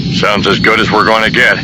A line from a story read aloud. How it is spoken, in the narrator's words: Han grunted